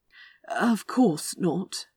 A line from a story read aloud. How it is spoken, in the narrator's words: Aziraphale said weakly